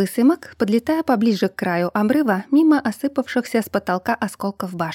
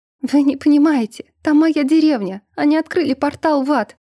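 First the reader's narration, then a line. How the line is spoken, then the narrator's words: Sobbing. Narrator (Russian): начала всхлипывать я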